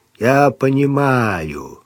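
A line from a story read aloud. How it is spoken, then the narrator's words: Gloomy reply. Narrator (Russian): мрачно отозвался штурман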